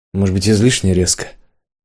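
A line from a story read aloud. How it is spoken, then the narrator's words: Sighing. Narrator (Russian): Трош вздохнул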